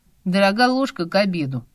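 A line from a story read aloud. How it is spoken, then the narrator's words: Grumbling. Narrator (Russian): пробурчал Лёва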